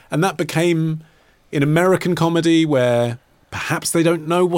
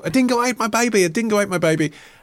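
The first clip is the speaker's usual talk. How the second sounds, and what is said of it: Hysterical dodgy Aussie accent, Meryl Streep. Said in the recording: “it's Meryl Streep. She's doing a slightly dodgy Aussie accent and she's a bit hysterical”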